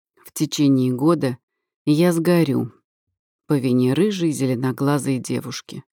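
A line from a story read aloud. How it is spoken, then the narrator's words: Plain. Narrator (Russian): ответил Киаран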